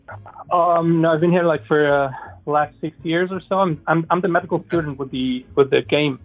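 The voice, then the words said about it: Slight Middle Eastern accent. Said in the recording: “You have a slight accent, and I don't hear German in it ... I kind of have a Middle Eastern kind of thing going there.”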